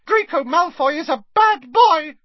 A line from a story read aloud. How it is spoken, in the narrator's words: squeaked Dobby angrily